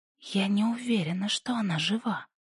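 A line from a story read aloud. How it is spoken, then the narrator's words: Quiet. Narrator (Russian): тихо сказала Пасифика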